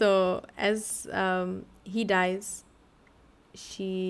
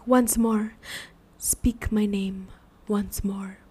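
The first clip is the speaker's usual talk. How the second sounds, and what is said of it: Voldemort-like character voice. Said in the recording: “doing his voice like Voldemort. Harry Potter.”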